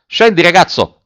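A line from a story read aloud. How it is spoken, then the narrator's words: Officer shouting. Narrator (Italian): gridò l'ufficiale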